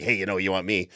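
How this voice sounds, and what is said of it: Poor Beetlejuice character impression. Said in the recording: “Beetlejuice is like smiling, showing like horrific teeth and going like ... That's my horrible impression.”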